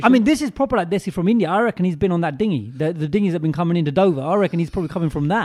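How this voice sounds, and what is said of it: Put-on Australian accent. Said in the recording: “sounding Australian”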